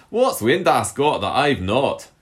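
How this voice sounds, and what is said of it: Put-on accent, slightly improved. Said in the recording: “Are you going to do the accent again? ... That was slightly better.”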